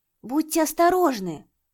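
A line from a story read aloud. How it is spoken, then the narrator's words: Shout. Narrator (Russian): закричал Лиюнь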